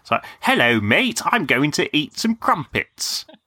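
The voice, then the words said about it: Put-on English accent. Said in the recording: “That was a good American doing an English accent”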